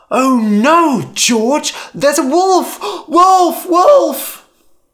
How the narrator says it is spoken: So again, Lyman cried

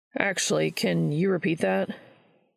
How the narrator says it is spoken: Charlie sighed softly

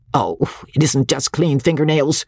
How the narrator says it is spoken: snapped Parthy

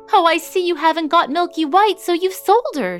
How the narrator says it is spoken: she exclaimed

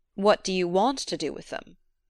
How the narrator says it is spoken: he asked

